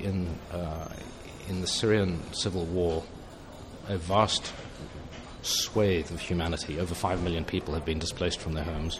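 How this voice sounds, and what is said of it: British English accent. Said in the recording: “as you might hear from my accent, we were talking about the United Kingdom”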